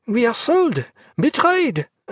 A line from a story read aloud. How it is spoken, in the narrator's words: Leclerc cried